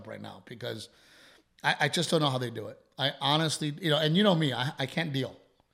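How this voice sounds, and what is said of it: Choked-up emotional voice. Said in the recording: “I'm getting choked up”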